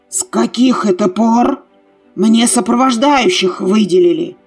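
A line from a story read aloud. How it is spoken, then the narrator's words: Displeased growl. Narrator (Russian): Недовольно прорычал Кир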